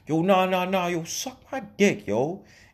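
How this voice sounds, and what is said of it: Imitated New York accent. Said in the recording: “he's from New York. Just by the way he talks ... he's from New York. I can tell just by his accent”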